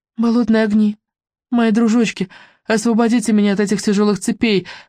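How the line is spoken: Pleading. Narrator (Russian): взмолилась Мелисенда

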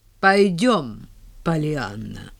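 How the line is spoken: Very dry. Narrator (Russian): сказала очень сухо

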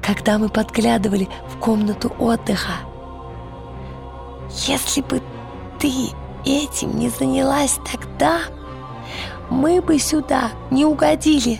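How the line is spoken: Whispered reply. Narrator (Russian): прошептал он в ответ

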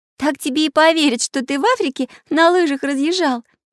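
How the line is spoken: Laughing. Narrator (Russian): засмеялась Настенька

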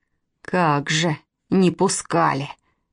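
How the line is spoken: Muttered grumble. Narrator (Russian): проворчал про себя Мышкин

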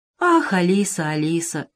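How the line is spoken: Sighed. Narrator (Russian): вздохнул Веня

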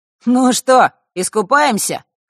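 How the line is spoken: Amused snort. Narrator (Russian): хмыкнул Маар

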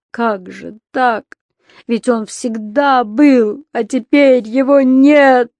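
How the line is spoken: Loud sobbing shouts. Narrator (Russian): рыдая в голос и выкрикивая

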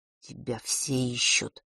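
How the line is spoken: Barely audible whisper. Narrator (Russian): едва слышно прошептал Фэш

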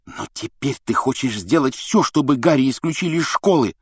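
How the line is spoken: Angry hiss. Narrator (Russian): зло прошипел Рон

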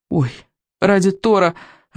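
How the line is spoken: Breathless exhale. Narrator (Russian): выдохнул Рыбьенок

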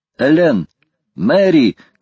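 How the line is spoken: Shouted. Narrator (Russian): крикнул Гленнерван

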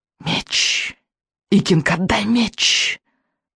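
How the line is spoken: Witch hissing. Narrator (Russian): прошипела ведьма

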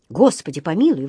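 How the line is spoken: Exclamation. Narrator (Russian): воскликнул он

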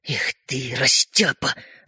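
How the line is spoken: Angry hiss. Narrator (Russian): рассерженно прошипел Родька

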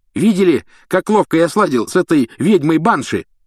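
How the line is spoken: Shouting. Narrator (Russian): кричал Симус

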